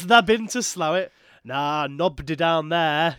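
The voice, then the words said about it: Exaggerated put-on Yorkshire accent. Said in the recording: “that's for the tourists, though, isn't it? That's like for the tourist accent. ... to make yourself seem more Yorkshire”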